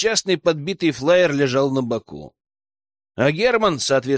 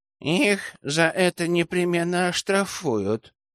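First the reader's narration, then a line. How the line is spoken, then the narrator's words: Sour voice from behind. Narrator (Russian): кислым голосом добавил с заднего сиденья ушибленный чип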